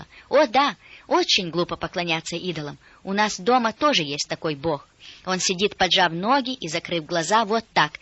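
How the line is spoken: Exclaimed, girl. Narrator (Russian): девочка воскликнула

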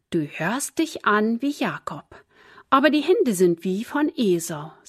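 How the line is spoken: Plain. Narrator (German): sagte Isaak

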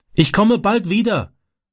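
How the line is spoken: Calling through car window. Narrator (German): rief er durchs Autofenster

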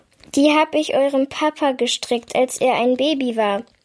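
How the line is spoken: Plain. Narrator (German): sagt sie

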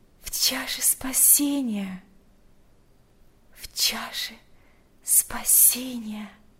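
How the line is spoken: Whispering. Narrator (Russian): прошептала Марфа

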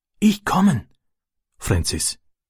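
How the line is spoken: Whispered. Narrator (German): flüsterte er

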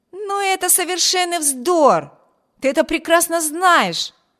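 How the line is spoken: Younger brother exclaiming. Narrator (Russian): воскликнул ее младший брат

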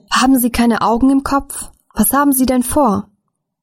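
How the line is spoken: Shouting. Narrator (German): Jemand schrie

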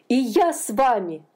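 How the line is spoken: Exclamation. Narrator (Russian): воскликнул он

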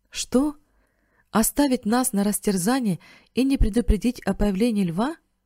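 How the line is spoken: Exclaimed. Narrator (Russian): воскликнул Бен

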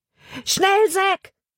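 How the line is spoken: Shouting. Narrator (German): schrie er

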